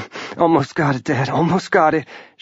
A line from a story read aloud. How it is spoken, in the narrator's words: she murmured